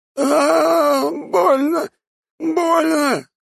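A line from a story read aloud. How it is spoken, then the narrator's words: Man sobbing in pain. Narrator (Russian): рыдает мужчина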